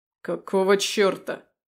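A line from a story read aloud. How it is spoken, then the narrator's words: Angry roar. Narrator (Russian): взревел гневно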